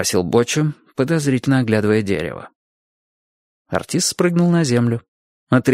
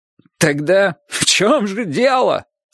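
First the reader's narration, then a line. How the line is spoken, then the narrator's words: Bitter mocking laughing question. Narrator (Russian): спросил артист, не то горько засмеявшись, не то насмешничая над горьким смехом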